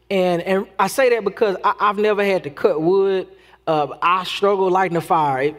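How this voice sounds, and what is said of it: Texas accent. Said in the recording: “I'm not as country as some people think I am, coming from Texas and my accent.”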